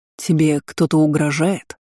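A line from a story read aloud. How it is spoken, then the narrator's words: Growling dragon voice. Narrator (Russian): В голосе дракона проскользнули рычащие нотки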